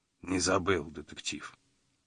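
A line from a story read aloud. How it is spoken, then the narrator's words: Quiet. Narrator (Russian): тихо вымолвил он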